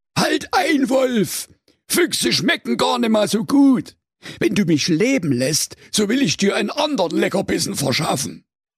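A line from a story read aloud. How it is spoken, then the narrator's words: Cunning fox calling out. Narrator (German): Im letzten Moment rief der listige Fuchs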